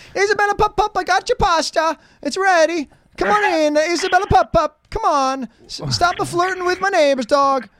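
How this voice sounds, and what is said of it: Put-on Italian accent. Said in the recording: “Do you say it with an accent, kind of, you know, the Italian? ... Why you got to do the Italian? ... accent? ... Dog become Italian?”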